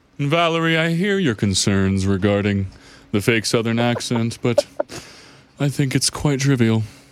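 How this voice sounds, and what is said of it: Fake posh rich-person accent. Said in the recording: “the best fake accent that I'm aware of ... playing a rich person”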